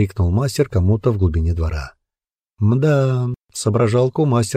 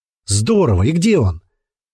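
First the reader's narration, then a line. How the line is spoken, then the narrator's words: Shouted. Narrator (Russian): Я закричал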